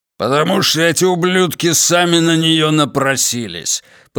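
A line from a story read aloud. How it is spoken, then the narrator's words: Angry growl. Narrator (Russian): прорычал Верзила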